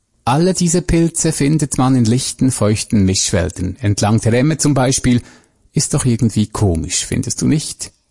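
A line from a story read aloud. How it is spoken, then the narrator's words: Calm, monotone. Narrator (German): Sie sprach ruhig und monoton, wie jemand, der selbst Gespräche führt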